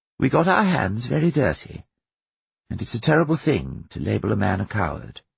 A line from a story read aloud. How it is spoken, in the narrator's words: she added quietly